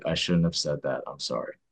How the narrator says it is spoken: the orderly answered softly

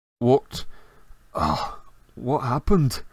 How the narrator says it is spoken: he groaned

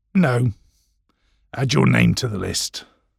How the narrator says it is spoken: he growled

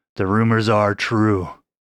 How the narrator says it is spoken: he said sadly, thinking of his severely injured crewmates

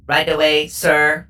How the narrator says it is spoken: the robot chirped

